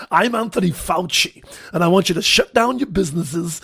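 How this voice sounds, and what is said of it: Imitates another person's voice. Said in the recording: “that a good impression or not? ... my Fauci impression”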